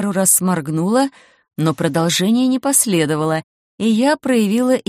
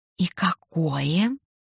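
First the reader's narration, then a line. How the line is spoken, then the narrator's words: Lowered to whisper. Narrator (Russian): понизив голос до шепота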